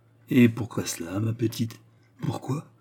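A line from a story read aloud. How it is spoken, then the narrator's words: Murmur, voice suddenly altering. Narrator (French): murmura Turquoise dont la voix s'altéra subitement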